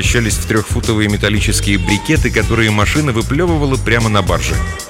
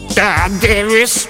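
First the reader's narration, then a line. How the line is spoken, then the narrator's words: Creaky director's voice. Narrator (Russian): проскрипел голос директора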